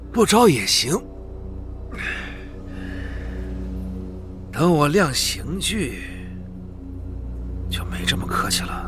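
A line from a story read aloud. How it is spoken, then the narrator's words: Sighing. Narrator (Chinese): 格洛塔叹了口气，说道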